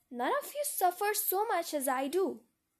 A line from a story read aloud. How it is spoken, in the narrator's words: cried Amy